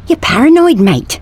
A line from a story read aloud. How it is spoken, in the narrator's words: said Sven, looking anxiously over his shoulder